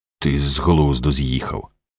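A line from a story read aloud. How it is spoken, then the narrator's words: Muttered. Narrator (Ukrainian): пробурмотів він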